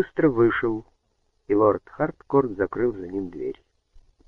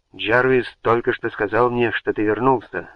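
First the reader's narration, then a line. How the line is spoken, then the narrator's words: Exclaimed. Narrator (Russian): воскликнул он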